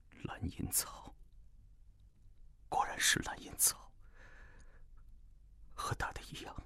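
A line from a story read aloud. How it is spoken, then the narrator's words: Dazed murmur. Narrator (Chinese): 唐昊怔怔地…一阵失神，良久才渐渐恢复过来，喃喃地说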